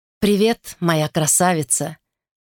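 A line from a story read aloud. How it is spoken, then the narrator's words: Affectionate. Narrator (Russian): ласково проговорил он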